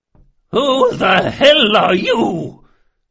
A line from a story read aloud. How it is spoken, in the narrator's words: she bellowed, and for a moment that age-weakened voice rose to something like its old power